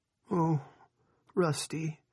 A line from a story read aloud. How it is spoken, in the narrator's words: Linda moaned